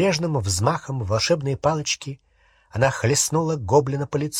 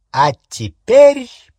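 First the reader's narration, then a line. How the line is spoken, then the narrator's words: Ringing triumphant proclamation. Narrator (Russian): победно звенящим голосом провозгласила она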